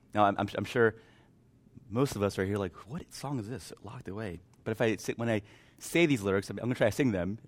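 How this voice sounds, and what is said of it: Hoarse, strained, mostly lost voice. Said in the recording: “My voice is kind of gone.”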